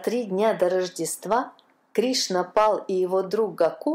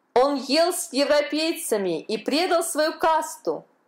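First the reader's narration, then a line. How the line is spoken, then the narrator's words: Crowd shouting. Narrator (Russian): закричала толпа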